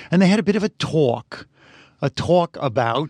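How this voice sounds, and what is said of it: Put-on New York accent. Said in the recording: “Your New York accent is terrible. ... I thought it was pretty good. ... different parts of Brooklyn”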